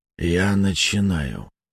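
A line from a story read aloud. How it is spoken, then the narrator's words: Dull, hollow voice. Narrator (Russian): глухо проговорил Керн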